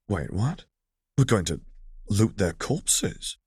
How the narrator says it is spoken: he asked quietly

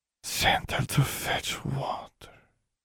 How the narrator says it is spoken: Bewee breathed

